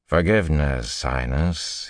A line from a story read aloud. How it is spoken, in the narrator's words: he drawled